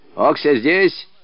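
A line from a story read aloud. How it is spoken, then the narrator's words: Stern question. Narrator (Russian): строго спрашивал Мыльников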